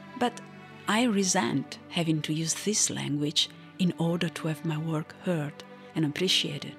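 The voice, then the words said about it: Non-native English accent. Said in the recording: “despite the fact that it is not my native language ... my spoken English is not bad either, if you can get over the accent”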